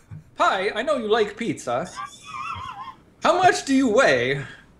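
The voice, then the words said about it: Put-on Swedish accent. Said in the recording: “As a guy that's been to Sweden, it is scary how accurate ... accent is. That's exactly how they all sound all the time.”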